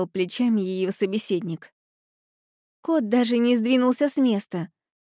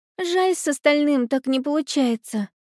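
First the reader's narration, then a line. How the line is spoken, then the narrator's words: Sighed. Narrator (Russian): вздохнула Алиса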